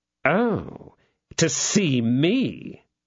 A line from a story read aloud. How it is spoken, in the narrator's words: said Lord de Winter, sneeringly